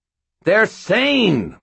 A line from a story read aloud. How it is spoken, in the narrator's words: Mort shouted back